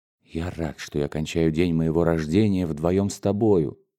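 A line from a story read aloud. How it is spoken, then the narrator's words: Passionate whisper. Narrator (Russian): страстно шептал раскрасневшийся Муратов Юлии Николаевне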